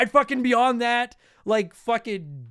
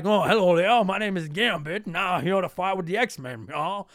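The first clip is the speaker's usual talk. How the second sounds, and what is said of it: Deliberately bad Gambit character voice. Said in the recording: “do the voice of Gambit for free ... we hear you do a great shitty voice”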